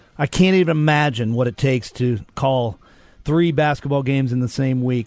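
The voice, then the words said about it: Strained, fading voice. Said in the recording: “I'm kind of losing my voice.”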